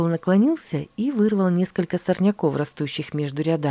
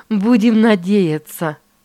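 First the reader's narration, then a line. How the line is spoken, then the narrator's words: Mother's laughter. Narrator (Russian): рассмеялась мама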